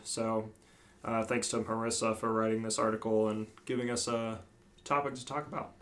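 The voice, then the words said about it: Put-on podcast host voice. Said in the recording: “Got your podcast voice.”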